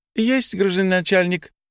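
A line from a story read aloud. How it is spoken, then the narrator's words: Cheerful reply. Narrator (Russian): весело отозвалась СССР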